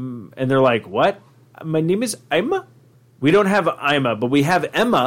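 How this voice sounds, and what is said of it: Usual voice. Nothing is said of it.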